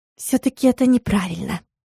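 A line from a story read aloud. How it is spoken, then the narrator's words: Conspiratorial whisper. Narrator (Russian): прошептала заговорщицки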